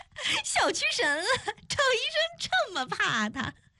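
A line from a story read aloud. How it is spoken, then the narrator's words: Laughing heartily. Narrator (Chinese): 邱莹莹哈哈大笑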